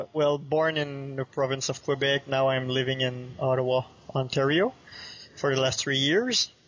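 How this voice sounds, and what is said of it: French-Canadian accent. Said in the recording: “French-Canadian. You can probably see that with my accent.”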